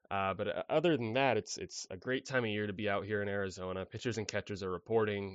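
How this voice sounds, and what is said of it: Voice sounds sick, under the weather. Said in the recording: “I'm a little under the weather, so apologies if my voice is coming through a little bit different this week.”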